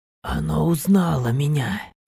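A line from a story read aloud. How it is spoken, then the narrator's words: Quiet. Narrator (Russian): произнес он тихо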